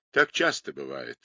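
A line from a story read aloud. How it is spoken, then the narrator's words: Sad remark. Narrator (Russian): грустно заметил агент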